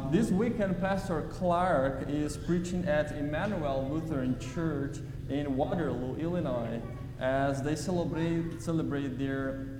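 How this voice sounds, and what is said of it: Brazilian Portuguese accent. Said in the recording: “As you can see by my accent, I'm not from here, I'm from Brazil”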